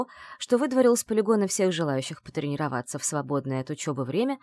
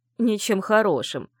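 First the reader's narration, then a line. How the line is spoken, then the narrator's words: Stern werewolf. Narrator (Russian): строго зыркнул оборотень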